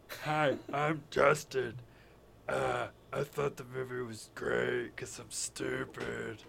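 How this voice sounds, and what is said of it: Mocking impression of a friend. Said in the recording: “my Justin impression? How did you do my Justin impression?”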